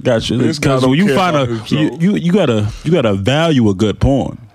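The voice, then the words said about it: Put-on Southern Baptist preacher voice. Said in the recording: “Why are you talking like a Southern Baptist right now?”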